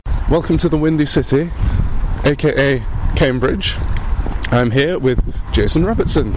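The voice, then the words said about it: Strained, fading voice. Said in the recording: “I'm losing my voice here. So if I go quiet at any point, that's the reason”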